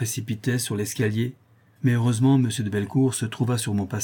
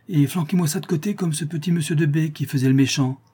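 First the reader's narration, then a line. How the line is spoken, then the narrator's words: Exclaiming. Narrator (French): s'écria Jasmin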